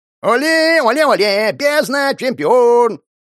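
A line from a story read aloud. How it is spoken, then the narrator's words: Demons chanting and yelling. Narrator (Russian): демонические дебилы орали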